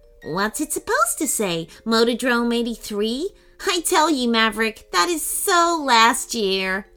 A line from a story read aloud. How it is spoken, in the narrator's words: laughed Marigold